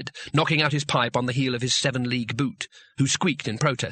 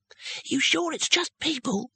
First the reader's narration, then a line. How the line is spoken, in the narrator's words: said the youngest wizard nervously